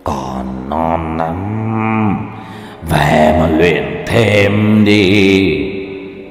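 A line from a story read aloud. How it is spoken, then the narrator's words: Eerie demonic hiss. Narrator (Vietnamese): Tên quỷ đứng đằng sau, nó rợn người mà rít vào qua kẽ răng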